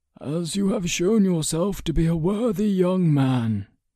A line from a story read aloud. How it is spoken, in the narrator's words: Ector sighed